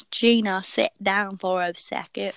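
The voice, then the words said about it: Poor put-on accent. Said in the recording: “That was not a good accent.”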